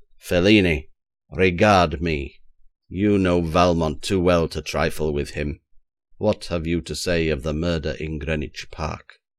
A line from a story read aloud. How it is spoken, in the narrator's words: I cried in a menacing voice